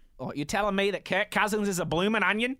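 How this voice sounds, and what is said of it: Bad put-on Australian accent. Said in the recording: “that's a really bad Australian accent.”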